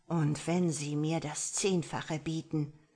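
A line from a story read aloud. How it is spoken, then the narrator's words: Hissing. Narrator (German): fauchte Damien Black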